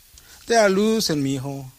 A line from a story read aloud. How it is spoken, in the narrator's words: Papa groans